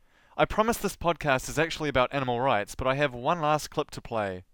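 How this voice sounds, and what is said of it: Speaker's own accent. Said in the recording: “the way I talk... my accent”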